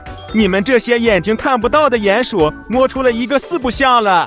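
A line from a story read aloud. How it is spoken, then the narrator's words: Mocking laughter. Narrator (Chinese): 围观的动物们呵呵大笑说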